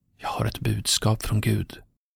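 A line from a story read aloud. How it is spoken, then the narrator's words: Cautious whisper. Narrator (Swedish): försiktigt ... viskade till honom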